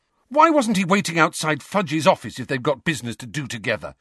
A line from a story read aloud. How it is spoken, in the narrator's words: Harry burst out furiously